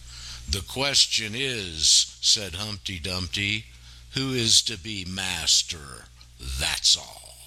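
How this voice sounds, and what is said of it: Storybook character voice reading aloud. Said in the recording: “Alice in Wonderland impersonator ... Very good.”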